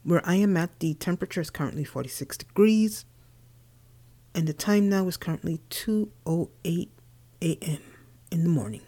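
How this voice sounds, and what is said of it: Tired-sounding voice. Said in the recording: “you can hear the tiredness in my voice.”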